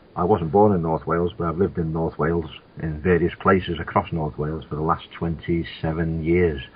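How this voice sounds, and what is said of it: Liverpool accent. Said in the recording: “Originally from Liverpool, but the accent might give that away.”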